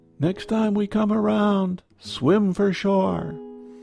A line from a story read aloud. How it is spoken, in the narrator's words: He shouted back